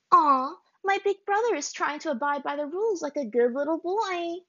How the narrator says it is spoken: she said in a mock baby voice

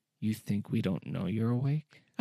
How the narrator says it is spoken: In a whisper that tickled his ear, said

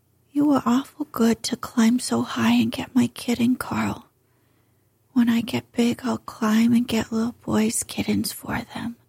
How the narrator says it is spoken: he murmured drowsily

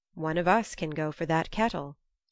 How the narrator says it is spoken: Frey said

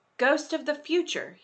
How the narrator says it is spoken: he exclaimed

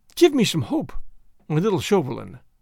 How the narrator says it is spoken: pleaded

